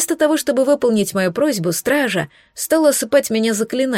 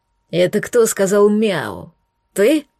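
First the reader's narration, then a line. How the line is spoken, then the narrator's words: Growled. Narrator (Russian): рыкнул на побледневшего молодого стража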